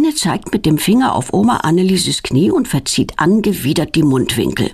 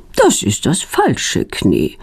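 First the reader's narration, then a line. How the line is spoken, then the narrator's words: Calm. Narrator (German): sagt sie ruhig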